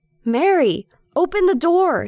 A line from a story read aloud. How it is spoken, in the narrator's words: he yells